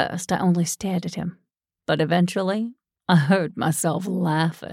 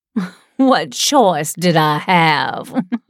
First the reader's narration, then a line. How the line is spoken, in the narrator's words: cackled